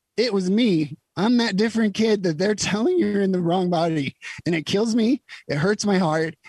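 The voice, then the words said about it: Emotional, wavering voice. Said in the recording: “I'm going to get a little emotional here”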